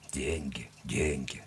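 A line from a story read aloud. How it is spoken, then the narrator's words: Grumbling. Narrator (Russian): проворчал он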